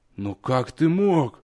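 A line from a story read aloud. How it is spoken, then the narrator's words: Choked muffled moan. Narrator (Russian): Не отнимая рук от лица, сдавленно простонал Лонер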